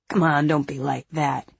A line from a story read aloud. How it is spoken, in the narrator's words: he says